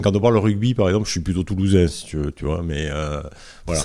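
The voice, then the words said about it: Southern French regional accent. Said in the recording (French): “t'es de Montauban ... On va l'entendre d'ailleurs avec ton accent.”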